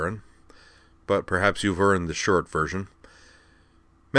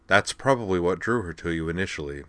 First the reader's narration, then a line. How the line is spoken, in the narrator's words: he said